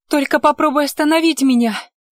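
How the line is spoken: Barked. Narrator (Russian): Рявкнула Лите

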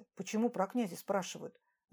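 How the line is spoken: Barely audible muttering. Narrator (Russian): Забормотал еле слышно

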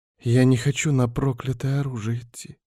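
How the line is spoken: Barely audible young woman. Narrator (Russian): еле слышно ответила девушка

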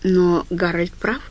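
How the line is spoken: Very gentle. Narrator (Russian): сказал Стью очень мягко

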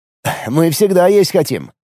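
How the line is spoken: Snorting fiddler. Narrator (Russian): хмыкнул скрипач

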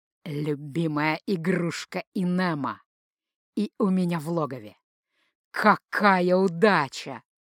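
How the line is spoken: Almost tender hiss. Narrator (Russian): почти ласково прошипел он

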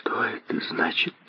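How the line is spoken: Whispered. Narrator (Russian): прошептала она

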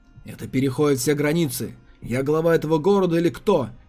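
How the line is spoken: Furious uncontrolled roar. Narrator (Russian): Яростно взревел потерявший над собой контроль Ядзун

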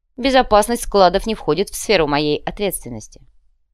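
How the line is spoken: Calm answer. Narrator (Russian): спокойно ответил Павел

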